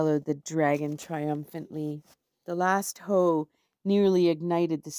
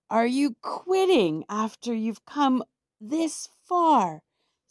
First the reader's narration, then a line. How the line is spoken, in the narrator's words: Squirrel yelled out